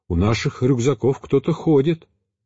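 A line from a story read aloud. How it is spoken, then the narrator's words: Alarmed monk's exclamation. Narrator (Russian): иеродиакон с тревогой в голосе воскликнул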